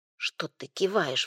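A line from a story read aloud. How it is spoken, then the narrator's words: Sudden hiss. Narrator (Russian): вдруг зашипела Танечка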